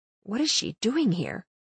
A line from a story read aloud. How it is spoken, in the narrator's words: I whispered to Knox